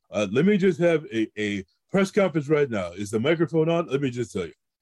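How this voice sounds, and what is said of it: Imitates another person's voice. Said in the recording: “doing an impression ... as much as a caricature of the person”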